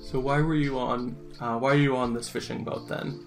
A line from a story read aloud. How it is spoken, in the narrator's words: Holly sighs and goes